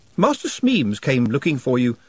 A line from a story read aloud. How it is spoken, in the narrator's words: said Nut